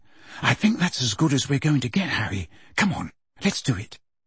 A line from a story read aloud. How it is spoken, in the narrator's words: Hermione said quietly